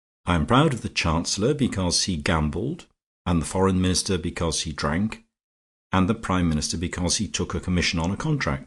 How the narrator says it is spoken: said Fisher firmly

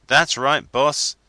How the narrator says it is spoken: shouted

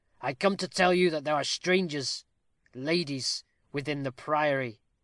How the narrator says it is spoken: said the Patrico gravely

